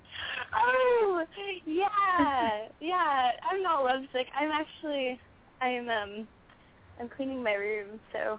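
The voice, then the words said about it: Sad, lovesick-sounding voice. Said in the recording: “You sounding like lovesick right now ... That's why you sound sad.”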